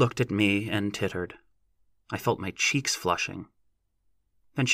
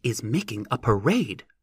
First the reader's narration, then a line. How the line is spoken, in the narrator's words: snapped Lossie